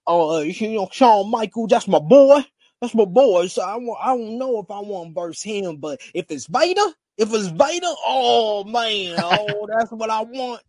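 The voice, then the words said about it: Imitates another person's voice. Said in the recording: “SP3 impersonation”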